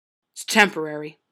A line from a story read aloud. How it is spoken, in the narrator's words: the man growled, clearly reluctant to part with it